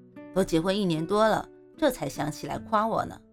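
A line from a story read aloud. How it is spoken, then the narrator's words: Wife teasing, laughing. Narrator (Chinese): 老婆笑着对我翻白眼说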